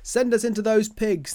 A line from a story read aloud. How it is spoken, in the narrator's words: the spirit begged